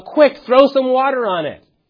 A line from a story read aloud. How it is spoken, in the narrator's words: If there was an electrical fire, and you yell out